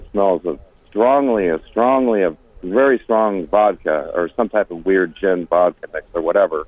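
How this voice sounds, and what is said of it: Usual voice. Nothing is said of it.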